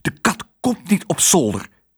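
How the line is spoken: Hissing aunt. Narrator (Dutch): siste tante Melia

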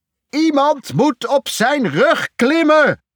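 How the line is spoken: Roaring. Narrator (Dutch): brulde Irrie

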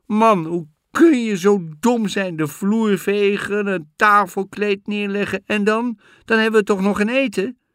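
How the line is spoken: Shouting. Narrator (Dutch): Al schreeuwend

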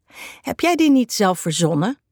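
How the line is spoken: Asking with chuckle. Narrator (Dutch): vraagt Nies met een lachje

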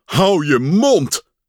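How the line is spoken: Shouting. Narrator (Dutch): schreeuwde Pat

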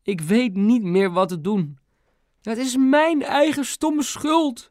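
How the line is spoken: Mother sobbing. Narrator (Dutch): voegde mam er snikkend aan toe

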